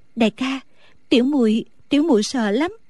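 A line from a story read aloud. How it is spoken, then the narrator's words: Trembling voice. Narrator (Vietnamese): A Tú run run nói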